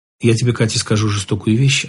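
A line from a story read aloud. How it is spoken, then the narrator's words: Calm. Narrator (Russian): ответил он спокойно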